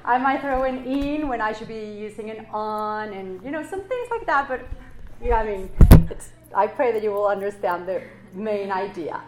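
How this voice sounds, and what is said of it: Mexican-accented non-native English. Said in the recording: “my accent ... I'm from Mexico, so English is my second language”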